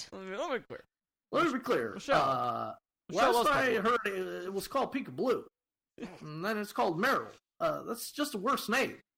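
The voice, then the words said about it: Bad Barack Obama impression. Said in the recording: “bad Barack Obama impression”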